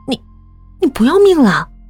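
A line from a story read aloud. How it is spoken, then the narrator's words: Shocked, alarmed cry. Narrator (Chinese): 小张大惊失色，叫道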